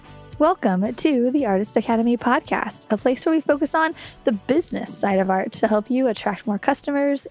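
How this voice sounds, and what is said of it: Slightly congested, off-sounding voice. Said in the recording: “I am recovering from a little bit of a sinus cold, so my voice is a little bit off”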